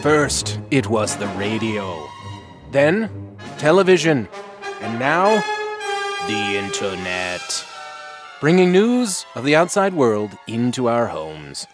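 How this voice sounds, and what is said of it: Old newsreel announcer voice. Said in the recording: “announcer voice. I'm doing an old newsreel.”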